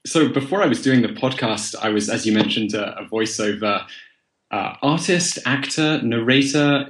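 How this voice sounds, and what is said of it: Plummy English accent. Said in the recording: “I developed a plummy accent, apparently.”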